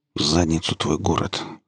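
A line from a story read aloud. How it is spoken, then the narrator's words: Muttered. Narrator (Russian): пробормотал механик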